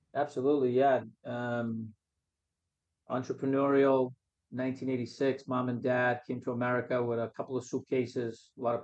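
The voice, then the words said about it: Boston accent. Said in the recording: “Boston accent”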